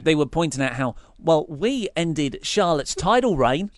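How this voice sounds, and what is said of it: Deliberately bad put-on accent. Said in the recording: “This is my bad accent now.”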